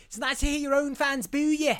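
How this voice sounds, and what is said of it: Imitates another person's voice. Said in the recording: “my best Wayne Rooney impression”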